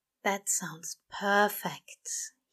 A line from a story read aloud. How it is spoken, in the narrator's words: he said dreamily